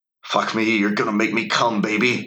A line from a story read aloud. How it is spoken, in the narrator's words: I growled